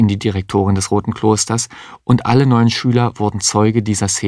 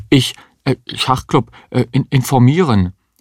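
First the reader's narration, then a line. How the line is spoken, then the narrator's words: Confused stammering student. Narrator (German): Der Schüler wusste gar nicht, was er sich vorzuwerfen hatte und stammelte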